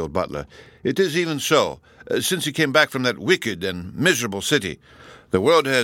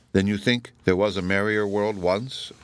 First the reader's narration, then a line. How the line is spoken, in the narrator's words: asked Kenyon